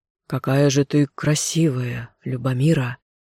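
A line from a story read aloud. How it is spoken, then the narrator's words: Hoarse voice. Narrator (Russian): охотник проговорила хрипшим голосом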